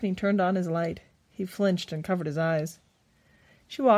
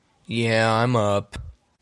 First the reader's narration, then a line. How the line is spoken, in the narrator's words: grumbled